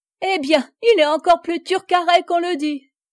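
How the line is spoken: Laughing exclamation. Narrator (French): s'écria la rieuse courtisane

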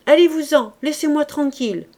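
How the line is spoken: Rude shout. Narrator (French): s'écria-t-il d'un ton fort impoli et qu'on ne lui avait jamais vu

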